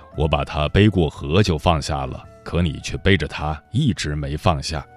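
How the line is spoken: Calm old monk. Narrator (Chinese): 老和尚淡淡的说

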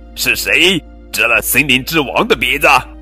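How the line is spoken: Roaring bear. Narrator (Chinese): 狗熊咆哮着说

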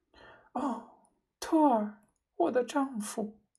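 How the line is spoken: Choked with sobs. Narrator (Chinese): 他哽咽道

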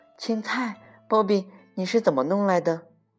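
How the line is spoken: Amazed exclamation. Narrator (Chinese): 露露惊叹道

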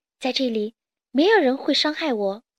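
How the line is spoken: Sighing, wistful. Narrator (Chinese): 公主感叹道

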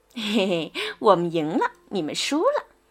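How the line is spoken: Mocking laughter. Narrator (Chinese): James 开始讥笑另外两队

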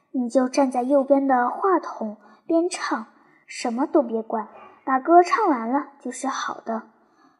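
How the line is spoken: Low voice. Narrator (Chinese): 肖老师压低声音对他说

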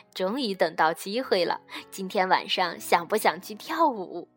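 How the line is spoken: Giggling. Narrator (Chinese): 阿德咯咯地笑着说

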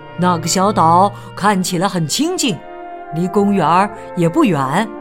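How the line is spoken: Quacking. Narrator (Chinese): 马拉先生嘎嘎叫道

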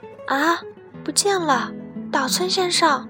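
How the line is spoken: Woman's shrill cry. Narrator (Chinese): 女子尖声喊道

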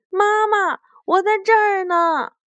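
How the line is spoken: Loud answer. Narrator (Chinese): 小兔醒了……大声的回答

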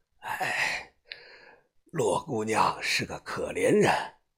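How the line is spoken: Sudden sigh. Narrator (Chinese): 季师傅突然叹了声气

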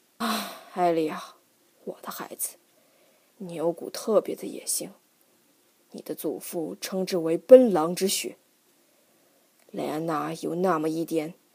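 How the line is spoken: Father sighing. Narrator (Chinese): 父亲叹道

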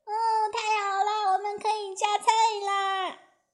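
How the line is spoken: Excited shout. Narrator (Chinese): 他大叫起来

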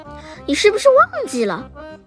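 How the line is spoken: Laughing. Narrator (Chinese): 快乐先生笑了起来

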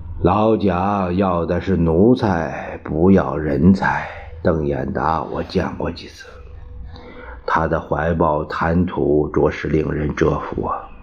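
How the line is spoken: Sighing. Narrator (Chinese): 冯玉祥叹道

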